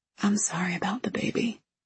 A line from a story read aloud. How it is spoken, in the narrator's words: I whisper